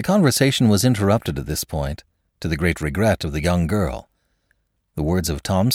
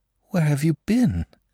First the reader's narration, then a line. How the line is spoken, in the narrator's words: she asked in a frightened whisper